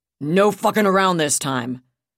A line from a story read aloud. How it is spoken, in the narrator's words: Colonel Nathan Mundy snarled over the battalion communications net